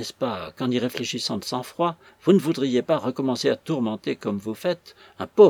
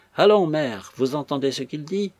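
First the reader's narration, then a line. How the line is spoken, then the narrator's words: Stern, impatient voice. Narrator (French): fit d'une voix sévère, avec impatience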